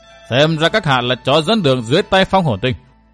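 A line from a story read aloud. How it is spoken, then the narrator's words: Cold voice. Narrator (Vietnamese): Phong Thiên Tinh vẫn cất giọng lạnh lùng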